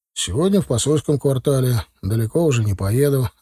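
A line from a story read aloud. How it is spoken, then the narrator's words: Plain. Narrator (Russian): ответил тот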